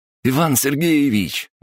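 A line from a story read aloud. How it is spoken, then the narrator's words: Cheerful shout. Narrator (Russian): весело заорал Мухин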